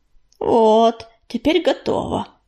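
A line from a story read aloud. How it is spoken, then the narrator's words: Pleased muttering. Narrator (Russian): довольно пробормотала она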